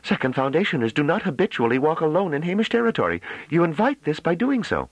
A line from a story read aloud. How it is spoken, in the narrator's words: Dullarmy cried out